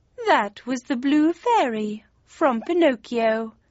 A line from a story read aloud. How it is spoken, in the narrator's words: said the cat, as he began to purr